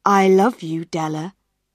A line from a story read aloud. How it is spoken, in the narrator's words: he said